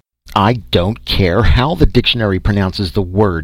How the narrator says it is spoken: he roared

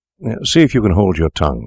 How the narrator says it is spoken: said he

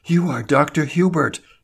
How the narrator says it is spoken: she gasped

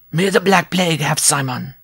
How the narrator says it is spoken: the dwarf cried

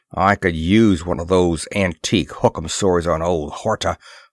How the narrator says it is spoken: growled Moore

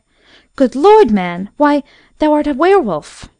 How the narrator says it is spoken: she cried out in terror

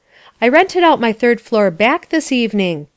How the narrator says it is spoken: said Mrs

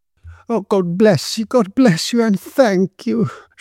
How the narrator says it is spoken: she exclaimed

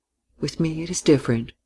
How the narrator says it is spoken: she said quietly

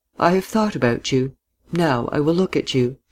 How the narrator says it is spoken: she said quietly, smiling

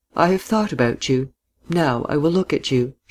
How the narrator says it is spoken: said quietly, smiling

